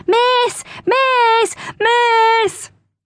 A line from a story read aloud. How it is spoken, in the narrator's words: yelled